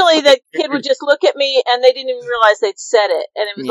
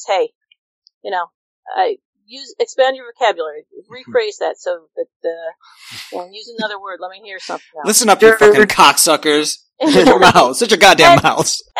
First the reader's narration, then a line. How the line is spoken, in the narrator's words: If the teacher just kind of laughs at him and says